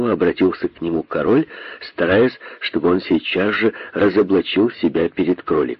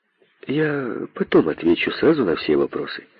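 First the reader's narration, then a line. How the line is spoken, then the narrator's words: Calm, thoughtful. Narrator (Russian): спокойно сказал задумавшийся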